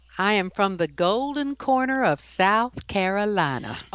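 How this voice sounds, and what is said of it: Exaggerated Southern US accent. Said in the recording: “I love that accent... you put it on a little bit there, didn't you?”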